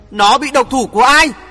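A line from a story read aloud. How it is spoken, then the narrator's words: Indignant shout. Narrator (Vietnamese): Chàng uất quá hét lớn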